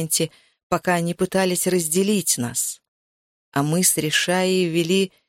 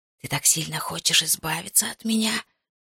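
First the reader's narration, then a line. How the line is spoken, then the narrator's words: Hissing. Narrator (Russian): шипел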